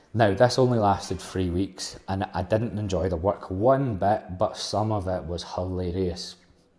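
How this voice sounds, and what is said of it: Glaswegian Scottish accent. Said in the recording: “3 of us are from Glasgow. 3 out of the 5 of us are from Glasgow ... with this accent.”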